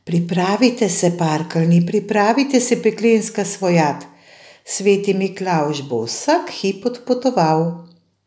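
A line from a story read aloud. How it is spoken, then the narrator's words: Archangel calling out. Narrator (Slovenian): nadangel Gabriel zaklical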